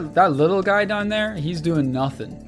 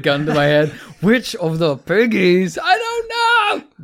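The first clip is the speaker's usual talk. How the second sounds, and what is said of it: Weird put-on German accent. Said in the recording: “Weird German accent for some reason.”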